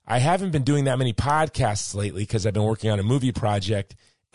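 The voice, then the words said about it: Hoarse, strained voice. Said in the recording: “been losing my voice. ... I've lost my voice and it's about to go.”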